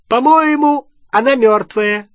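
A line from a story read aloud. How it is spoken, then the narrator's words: Joyful male shout. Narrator (Russian): радостно закричал он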